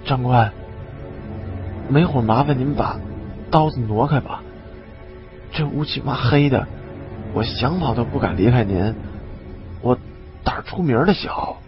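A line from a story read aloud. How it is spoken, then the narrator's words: Low voice. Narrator (Chinese): 李二狗又低声对我说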